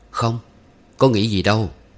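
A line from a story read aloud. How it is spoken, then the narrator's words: Smiling denial. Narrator (Vietnamese): Liêm Khê mỉm cười chối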